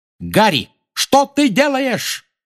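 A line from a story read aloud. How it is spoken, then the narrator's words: Shouted while flying past. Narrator (Russian): крикнула Анжелина, пролетая мимо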